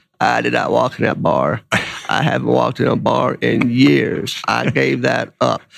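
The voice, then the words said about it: Bill Clinton impression. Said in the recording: “your Clinton impression”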